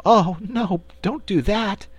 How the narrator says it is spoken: pleaded Cake

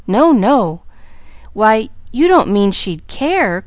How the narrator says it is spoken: cried Pollyanna, plainly disturbed

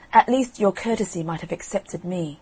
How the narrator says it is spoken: the new queen flushed up and cried out

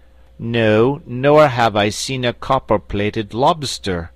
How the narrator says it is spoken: replied Will John in an equally haughty tone

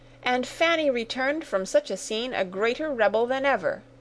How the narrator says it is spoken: cried Sarah indignantly

